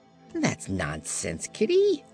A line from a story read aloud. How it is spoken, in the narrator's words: retorted the Patchwork Girl cheerfully